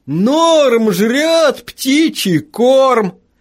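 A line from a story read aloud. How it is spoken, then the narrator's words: Yelling. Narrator (Russian): Дэвид Гарсия заорал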